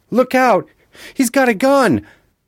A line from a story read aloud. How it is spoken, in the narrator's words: Nick screamed